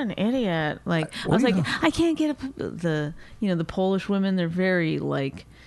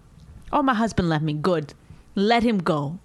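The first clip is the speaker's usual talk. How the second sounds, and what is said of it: Matter-of-fact Polish woman impression. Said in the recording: “Is that your impression of Polish people?”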